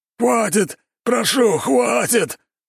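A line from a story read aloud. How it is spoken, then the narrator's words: Desperate wailing, stout man. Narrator (Russian): вопил полный мужчина, привязанный к столбу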